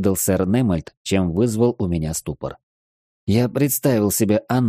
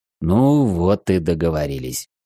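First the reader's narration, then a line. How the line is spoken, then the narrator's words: Relieved sigh. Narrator (Russian): облегченно вздохнул майор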